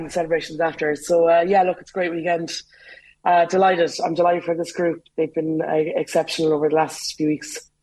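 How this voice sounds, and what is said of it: Slightly hoarse voice. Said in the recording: “I'm a little bit hoarse from shouting during the match.”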